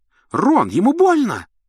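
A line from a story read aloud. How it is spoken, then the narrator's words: Shriek. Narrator (Russian): взвизгнула Гермиона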